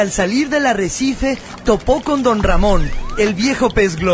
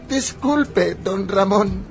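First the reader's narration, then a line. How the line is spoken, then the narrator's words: Stammering. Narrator (Spanish): balbuceó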